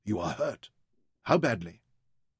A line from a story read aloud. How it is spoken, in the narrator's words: asked anxiously